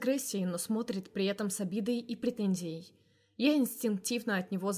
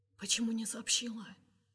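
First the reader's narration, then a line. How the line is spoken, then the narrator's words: Whispered question. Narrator (Russian): спрашивает Кирилл шепотом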